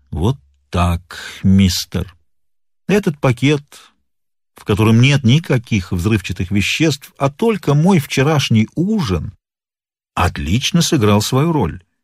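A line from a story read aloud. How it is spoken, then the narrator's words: Calm. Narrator (Russian): Сыщик начал спокойно говорить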